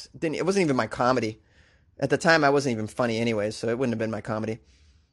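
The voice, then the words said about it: Boston accent. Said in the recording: “Boston is a super sexy accent... my accent got me laid more than anything else”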